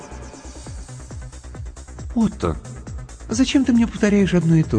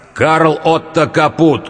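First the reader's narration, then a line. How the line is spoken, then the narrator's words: Loud. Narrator (Russian): громко произнес Тимур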